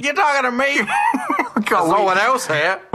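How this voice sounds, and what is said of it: Bad put-on Brooklyn accent. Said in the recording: “In Brooklyn, New York ... We are terrible at accents, we really are.”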